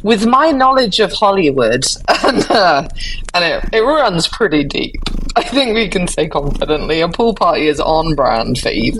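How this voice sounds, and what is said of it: Posh English accent. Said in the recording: “It sounds so much nicer when you say your posh little accent.”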